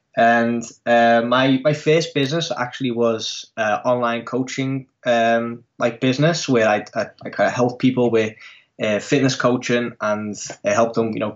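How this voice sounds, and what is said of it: English accent. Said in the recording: “as you can hear from my accent, I'm actually from English descent. So my parents and like the rest of my family are from the UK.”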